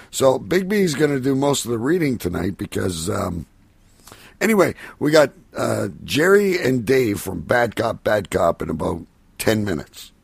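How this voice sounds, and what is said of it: Hoarse, worn-out voice. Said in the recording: “my voice is fucking shot”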